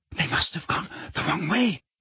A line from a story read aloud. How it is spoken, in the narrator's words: whispered Hermione, terror in her face